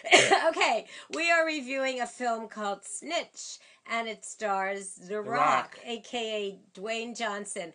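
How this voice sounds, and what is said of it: Hoarse, husky voice. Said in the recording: “lost my voice. But I sound sexy”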